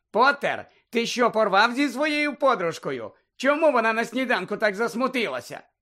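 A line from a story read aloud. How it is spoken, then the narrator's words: Shouted. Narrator (Ukrainian): Пенсі крикнула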